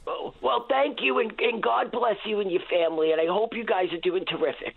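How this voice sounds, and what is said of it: New York accent. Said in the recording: “No trouble to tell where ... is from ... that New York accent”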